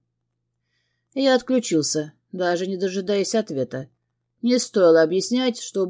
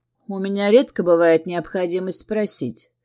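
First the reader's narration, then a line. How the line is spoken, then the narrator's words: Calm. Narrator (Russian): ответил я спокойно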